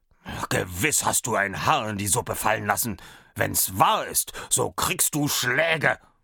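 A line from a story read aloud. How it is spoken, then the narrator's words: Startled cook speaking. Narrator (German): Der Koch erschrak und sprach zu Allerlei Rau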